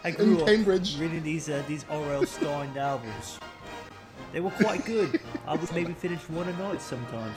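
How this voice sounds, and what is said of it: Put-on British accent. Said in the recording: “I don't know why I'm fucking talking with a British accent.”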